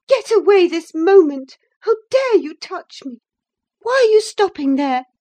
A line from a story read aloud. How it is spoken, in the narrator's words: cried, in a tone of disgust